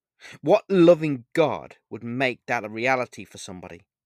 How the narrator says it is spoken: I asked angrily as my tears fell uncontrollably

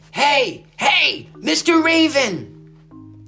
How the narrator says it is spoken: he shouted

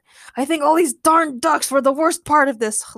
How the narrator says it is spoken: Logan growled

